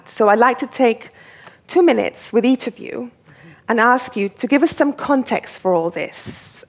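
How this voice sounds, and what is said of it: English accent. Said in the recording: “this beautiful, lovely English accent, it's all fake”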